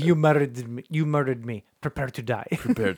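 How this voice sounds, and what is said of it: Inigo Montoya impression. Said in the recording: “a Freddy Krueger played by the guy that played Inigo Montoya from The Princess Bride”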